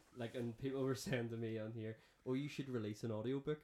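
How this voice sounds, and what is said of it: Northern Irish accent, Belfast-Downpatrick mix. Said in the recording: “your accent, it wanders a little bit, but when you get excited or angry, it definitely goes down Patrick Belfast ... I would have like a transatlantic accent of Belfast, down Patrick”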